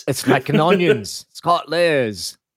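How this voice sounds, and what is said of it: Poor Shrek character voice. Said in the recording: “terrible Shrek impression.”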